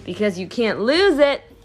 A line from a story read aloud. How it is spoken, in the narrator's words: Uncle Matt roared with laughter